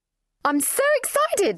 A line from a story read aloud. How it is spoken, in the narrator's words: shrieked Pamela